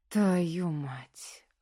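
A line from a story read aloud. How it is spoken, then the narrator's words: Breathed out. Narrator (Russian): выдохнул он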